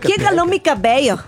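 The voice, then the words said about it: Attempted Yucatecan accent, sounds Colombian. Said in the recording (Spanish): “el acento yucateco ... Es como yucateco de Bogotá.”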